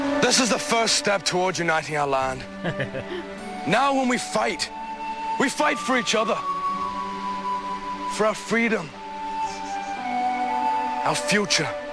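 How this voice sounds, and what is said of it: Weak Irish accent. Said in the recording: “Like, it's Ireland. ... That's a pretty weak accent.”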